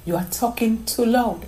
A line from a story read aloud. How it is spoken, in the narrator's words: someone whispered in her ear